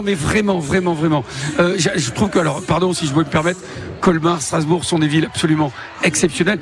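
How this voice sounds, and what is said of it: Slight Bordeaux French accent. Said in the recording (French): “un petit accent, ça vient d'où exactement? ... De Bordeaux”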